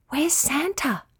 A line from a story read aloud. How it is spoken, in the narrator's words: Stella whispered to Emmy